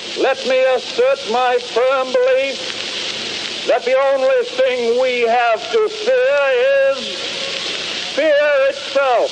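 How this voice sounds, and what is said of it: Old-fashioned 1930s accent. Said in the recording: “it's still there, that accent... Very much in the 30s.”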